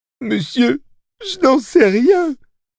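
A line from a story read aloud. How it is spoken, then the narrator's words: Sobbing. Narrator (French): sanglota Waverly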